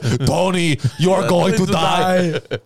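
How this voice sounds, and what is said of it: Good Terminator impression. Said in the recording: “like the Terminator ... that was a good impression”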